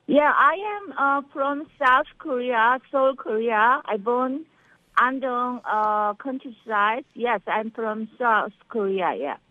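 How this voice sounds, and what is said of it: Slight Korean accent. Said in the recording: “you have a little bit of an accent.”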